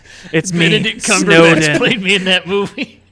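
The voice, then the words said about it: Imitates another person's voice. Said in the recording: “my famous impression ... does an impression ... your French Stewart impression”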